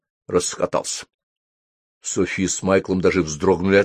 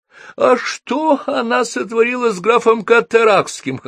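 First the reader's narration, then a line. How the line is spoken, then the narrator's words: Guffawing. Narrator (Russian): хохотал Хоул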